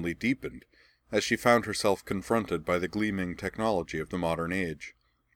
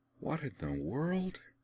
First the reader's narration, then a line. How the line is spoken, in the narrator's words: She murmured